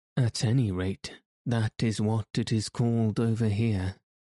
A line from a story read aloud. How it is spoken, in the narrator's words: she said dryly